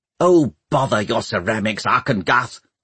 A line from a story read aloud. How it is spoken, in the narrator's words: snapped Pomeroy, who could see how upset Catherine was